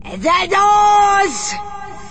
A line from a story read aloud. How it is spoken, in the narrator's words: shouted the Grand High Witch in a voice that filled the room and bounced around the walls